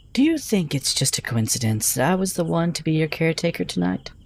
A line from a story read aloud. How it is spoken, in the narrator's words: she said to me in a quiet voice